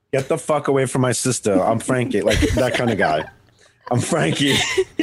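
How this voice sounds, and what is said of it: Tough-guy Long Island Italian accent. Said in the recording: “a Long Island ... accent ... he's Italian now. Now he's a Guido. He's a Guido from the South Shore of Long Island”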